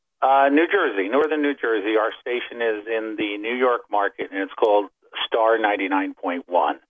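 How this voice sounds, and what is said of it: Polished radio announcer voice. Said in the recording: “I hear a radio voice there.”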